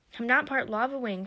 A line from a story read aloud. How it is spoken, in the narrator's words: Firebolt cried